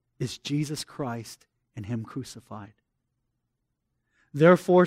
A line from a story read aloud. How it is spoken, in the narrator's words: pleads Owen